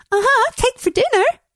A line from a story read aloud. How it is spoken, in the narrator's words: She giggles